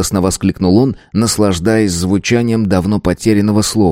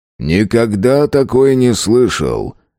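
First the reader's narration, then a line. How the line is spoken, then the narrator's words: Dry, wry tone. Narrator (Russian): Рей-Сити сухо улыбнулся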